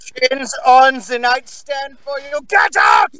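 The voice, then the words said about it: Angry scream in German accent. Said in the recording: “He's got the best German scream ... Just the angry German”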